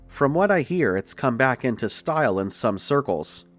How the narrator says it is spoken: he chuckled dryly

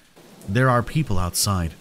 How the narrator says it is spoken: Leon said calmly

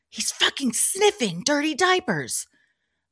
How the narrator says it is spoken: she whispered to her

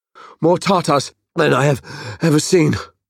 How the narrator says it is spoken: Kassar panted

